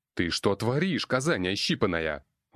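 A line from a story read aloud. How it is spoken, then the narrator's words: Roar. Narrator (Russian): Взревел я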